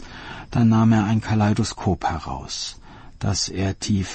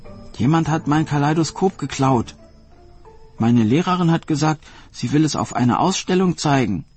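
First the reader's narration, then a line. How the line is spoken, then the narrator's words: Girl crying out, weeping. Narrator (German): rief das Mädchen weinend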